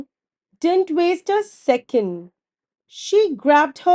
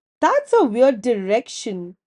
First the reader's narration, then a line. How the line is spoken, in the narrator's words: Penny giggled